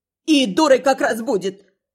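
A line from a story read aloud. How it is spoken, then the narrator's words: Angry reply. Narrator (Russian): Снова зло отозвалась тувейка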